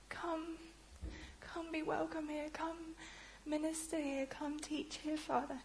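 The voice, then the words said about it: Emotional, tearful voice. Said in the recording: “you can tell I'm a little bit emotional.”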